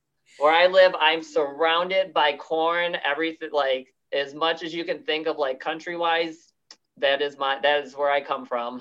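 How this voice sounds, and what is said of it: Strong American Midwestern accent. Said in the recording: “I have the Midwest accent so bad. They go, you're from Chicago”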